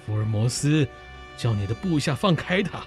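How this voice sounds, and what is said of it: Frightening, calm voice. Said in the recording (Chinese): “用可怕而镇静的声音说”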